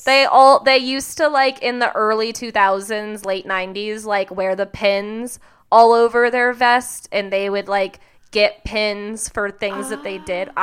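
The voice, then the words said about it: Slipping into a southern accent. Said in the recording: “I'm, like, devolving into a weird southern accent today ... is making my southern accent come out”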